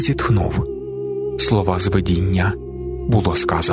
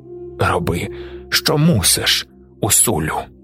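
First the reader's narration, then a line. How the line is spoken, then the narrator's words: Hoarse rasp. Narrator (Ukrainian): прохрипів Усайм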